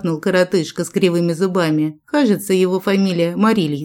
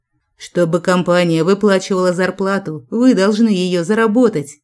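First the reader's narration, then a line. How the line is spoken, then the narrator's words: Growl. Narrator (Russian): рыкнул Джек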